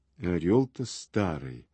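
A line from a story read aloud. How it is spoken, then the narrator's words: Father's mutter. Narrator (Russian): пробормотал отец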